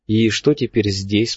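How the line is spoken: Plain question. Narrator (Russian): спросил я

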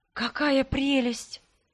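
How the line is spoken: Breathless admiration. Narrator (Russian): выдохнула я

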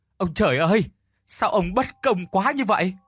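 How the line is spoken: Fake sympathetic sobbing. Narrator (Vietnamese): hắn thút thít làm bộ cảm thông, chia sẻ

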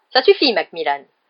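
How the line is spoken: Curt snap. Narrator (French): lança sèchement le professeur McGonagall

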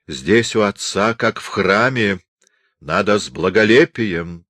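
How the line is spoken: Stern remark. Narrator (Russian): строго заметила она

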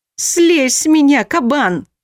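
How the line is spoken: Howling. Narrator (Russian): взвыла

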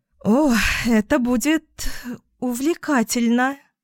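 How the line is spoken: Laughing, playful. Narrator (Russian): Я брыкалась и смеялась

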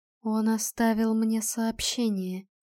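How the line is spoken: Quiet reply. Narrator (Russian): тихо отозвался третий

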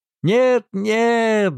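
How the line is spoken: Two children shouting. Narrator (Russian): закричали 2 маленьких Кретчета

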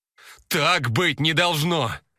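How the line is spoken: Screaming. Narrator (Russian): завопила Светка

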